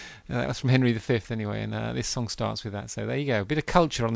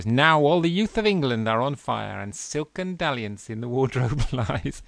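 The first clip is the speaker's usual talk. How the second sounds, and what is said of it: Theatrical Shakespearean recitation voice. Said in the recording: “I'll do my best Shakespeare voice.”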